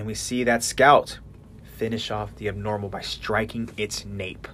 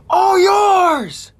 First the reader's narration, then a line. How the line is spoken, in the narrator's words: Ness screams out